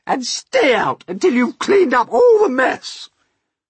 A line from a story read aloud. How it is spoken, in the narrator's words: they yelled